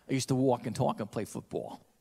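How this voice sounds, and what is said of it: Put-on New Jersey accent. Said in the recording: “as a Catholic kid growing up in New Jersey, I used to talk like this ... I lost all my accent”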